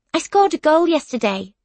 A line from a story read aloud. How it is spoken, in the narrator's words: blurt out